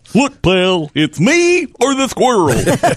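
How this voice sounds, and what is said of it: Cartoon character voice. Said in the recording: “That's more Barney, isn't it?”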